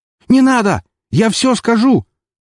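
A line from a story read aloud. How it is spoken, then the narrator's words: Terrified scream. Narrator (Russian): закричал он с расширившимися от ужаса глазами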